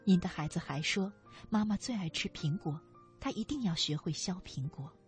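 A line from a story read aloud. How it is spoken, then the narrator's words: Choked up, low voice. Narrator (Chinese): 老师忽然哽咽了，他低声说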